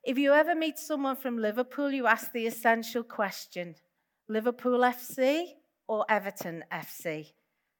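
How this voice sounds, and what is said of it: Toned-down Liverpool accent. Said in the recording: “This is a Chinese gate from Liverpool, my hometown. You may be able to hear the accent. ... I'm toning it down a lot.”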